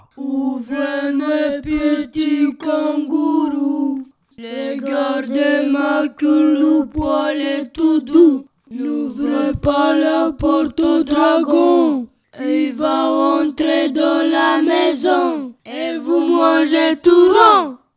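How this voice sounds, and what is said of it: Singing in a big deep voice. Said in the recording (French): “chante avec sa grosse voix ... Ta voix, elle est trop grosse.”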